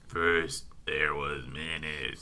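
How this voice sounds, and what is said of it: Failed evil voice, demented Fozzie-like. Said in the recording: “He sounds like a demented Fozzie. ... You can't sound evil, can you?”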